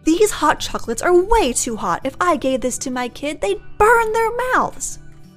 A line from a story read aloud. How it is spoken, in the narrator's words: Mom yells